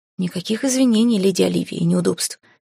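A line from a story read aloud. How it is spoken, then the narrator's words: Calm reply. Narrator (Russian): спокойно отозвался Хал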